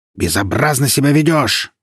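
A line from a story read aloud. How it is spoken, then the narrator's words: Roaring. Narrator (Russian): взревел мэр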